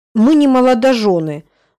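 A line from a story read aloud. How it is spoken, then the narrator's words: Angry correction. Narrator (Russian): зло поправляю я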